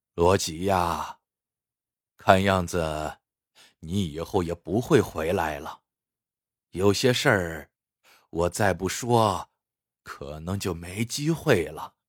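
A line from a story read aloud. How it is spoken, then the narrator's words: Sighing. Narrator (Chinese): 白善喜叹了口气说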